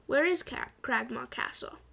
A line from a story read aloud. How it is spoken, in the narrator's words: Attilius asked